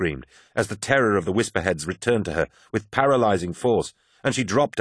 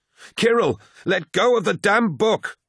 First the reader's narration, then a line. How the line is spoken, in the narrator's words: she cried, as an awful ripping sound came from above